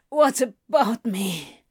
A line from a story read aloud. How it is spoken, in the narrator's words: Crowley grunts